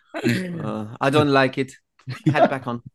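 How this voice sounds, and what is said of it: Imitated German-accented mum. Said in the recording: “German accent”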